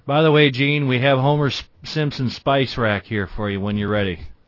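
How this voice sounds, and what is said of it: Mock Georgia Southern accent. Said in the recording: “I'm going to talk like this for the rest of your show ... I like to make fun of his accent ... our friend down in Georgia”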